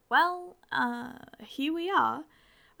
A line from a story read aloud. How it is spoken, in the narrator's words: said, twisting my fingers nervously